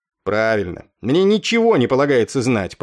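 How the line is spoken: Grumble. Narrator (Russian): пробурчал капрал Уиткум

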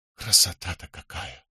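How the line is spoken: Whispering. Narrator (Russian): прошептал он

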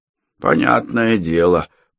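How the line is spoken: Mutter. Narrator (Russian): пробурчал санитар

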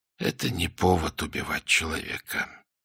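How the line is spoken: Quiet, self-persuading. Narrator (Russian): произнес он тихим голосом, будто убеждая себя самого

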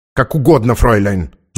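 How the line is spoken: Spiteful reply in German. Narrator (Russian): злобно ответила та по-немецки

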